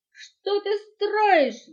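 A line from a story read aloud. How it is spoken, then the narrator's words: Surprised shout in unison. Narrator (Russian): в один голос они закричали, удивленные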